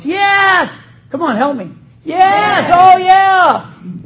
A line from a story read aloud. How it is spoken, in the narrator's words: the whole crowd yells